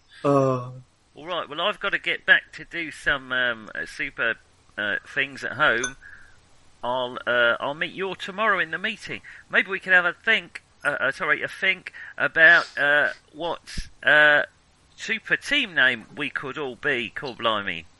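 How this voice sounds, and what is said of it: Badly done put-on accent. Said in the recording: “well, that was a truly appalling. Truly appalling accent.”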